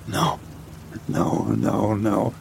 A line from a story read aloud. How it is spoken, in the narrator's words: I muttered, feeling the panic unravel